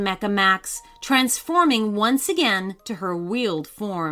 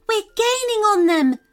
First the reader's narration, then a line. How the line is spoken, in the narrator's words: shouted Madison excitedly